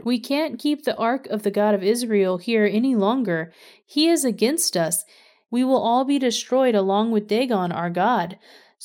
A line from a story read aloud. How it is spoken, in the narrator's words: they cried out